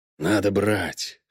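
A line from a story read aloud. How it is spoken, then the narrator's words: Practical whisper. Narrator (Russian): шепнул практичный Быков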